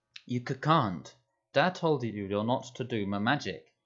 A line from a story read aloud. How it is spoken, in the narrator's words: he said